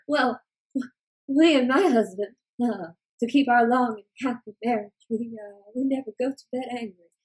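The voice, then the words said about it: Old British woman, watery drowning voice. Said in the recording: “it's always a woman who sounds like she's drowning... it sounds like you're just drowning... I think old people are British and drowning... in my vocal impression”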